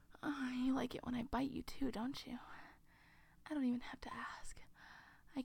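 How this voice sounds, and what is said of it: Usual voice. Nothing is said of it.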